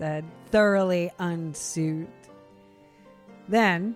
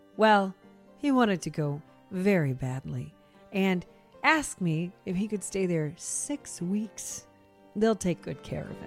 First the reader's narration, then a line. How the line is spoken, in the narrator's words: The second wife said in a soothing voice